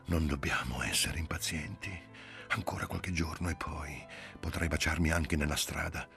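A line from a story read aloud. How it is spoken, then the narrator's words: Breathless whisper. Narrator (Italian): senza fiato sussurrò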